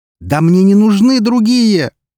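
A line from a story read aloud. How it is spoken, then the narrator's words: Exclamation. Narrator (Russian): воскликнул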